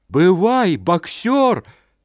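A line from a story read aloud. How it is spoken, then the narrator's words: Shouting in chorus. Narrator (Belarusian): крычалі яны хорам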